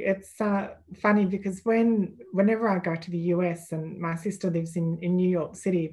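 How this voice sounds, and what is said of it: Australian accent. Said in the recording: “you could sell me dirt with that voice, that accent. ... you just hear these swarm of Australian accents and you think, oh my gosh, is that how we sound?”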